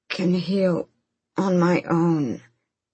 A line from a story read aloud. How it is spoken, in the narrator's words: Fenris rasped, noting the strain